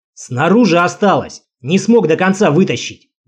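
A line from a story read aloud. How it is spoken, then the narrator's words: Barking goblin. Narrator (Russian): гаркнул гоблин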